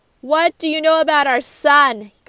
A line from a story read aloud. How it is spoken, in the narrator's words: Carlton yelled at Angela